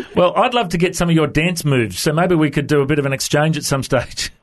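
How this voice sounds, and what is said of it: Australian accent. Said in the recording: “have you chatted to many Aussies before? Is my accent okay? ... Your accent is great. I want your accent.”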